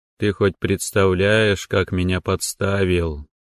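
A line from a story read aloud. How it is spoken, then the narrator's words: Sad question. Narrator (Russian): грустно спросил Ло Канг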